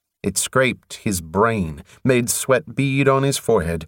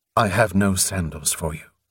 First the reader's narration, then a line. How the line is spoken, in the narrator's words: Atiyaran said stiffly